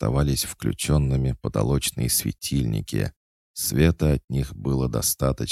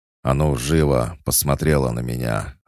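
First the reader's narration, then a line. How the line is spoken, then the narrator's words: Man's growl. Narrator (Russian): рыкнул мужчина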